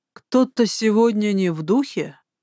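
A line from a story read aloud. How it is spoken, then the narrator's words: Wry snort. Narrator (Russian): хмыкнул Алекс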